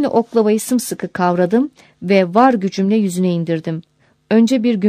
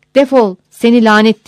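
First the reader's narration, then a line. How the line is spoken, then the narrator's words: Shouting. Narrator (Turkish): diye bağırdım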